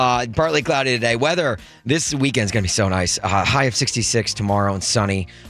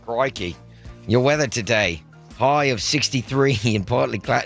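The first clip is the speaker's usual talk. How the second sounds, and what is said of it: Put-on Australian accent, slipping British. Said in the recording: “I can't do an Australian accent for too long because then it just goes British.”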